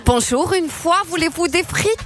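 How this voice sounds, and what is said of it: Put-on Belgian French accent. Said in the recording (French): “accent belge”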